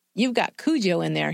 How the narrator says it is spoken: said

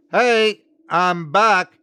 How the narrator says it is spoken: called out

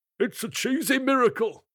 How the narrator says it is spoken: cried a rabbit

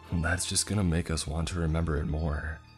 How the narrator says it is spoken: I said

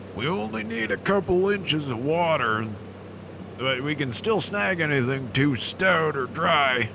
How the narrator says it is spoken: Mo called out

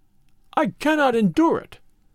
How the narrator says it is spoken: he cried

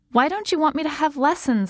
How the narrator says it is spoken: I said, close to shouting

